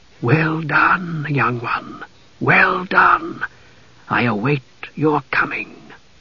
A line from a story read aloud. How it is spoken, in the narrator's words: he heard a voice whispering